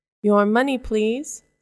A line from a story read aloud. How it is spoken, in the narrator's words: says Robin